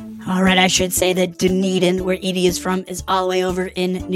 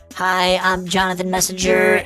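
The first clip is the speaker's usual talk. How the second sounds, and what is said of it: Character voice of Jonathan. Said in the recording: “put on my Jonathan voice.”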